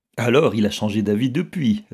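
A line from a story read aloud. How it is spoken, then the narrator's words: Cheerful reply. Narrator (French): répondit gaiement M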